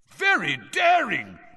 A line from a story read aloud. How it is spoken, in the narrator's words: Bagman was yelling